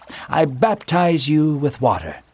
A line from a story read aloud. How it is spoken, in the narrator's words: John said calmly